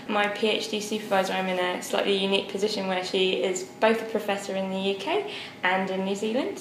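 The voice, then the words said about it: British accent. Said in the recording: “you can tell from my accent that I'm originally from the UK”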